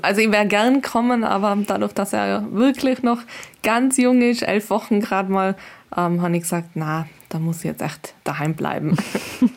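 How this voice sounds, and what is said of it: Sweet Austrian accent. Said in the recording (German): “Man hört schon an dem ganz süßen österreichischen Akzent.”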